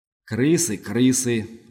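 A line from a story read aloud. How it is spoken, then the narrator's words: Beast grumbling. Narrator (Russian): буркнул зверь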